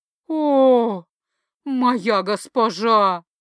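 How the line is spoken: Ecstatic voluptuous moan. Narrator (Russian): сладострастно стонал в экстазе

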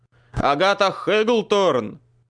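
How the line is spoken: Shouted. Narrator (Russian): крикнул я

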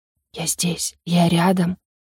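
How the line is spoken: Barely audible breath against shoulder. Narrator (Russian): Еле слышно выдохнул, касаясь губами ее плеча

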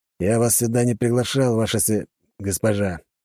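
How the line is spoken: Grumbled. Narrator (Russian): проворчал Голстейн

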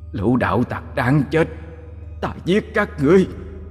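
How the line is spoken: Angry roar. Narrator (Vietnamese): Nó giận dữ gào lên

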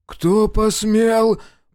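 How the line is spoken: Drunken roar. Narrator (Russian): пьяно взревел Аверкин

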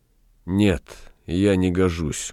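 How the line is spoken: Sad. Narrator (Russian): грустно ответил Галеран

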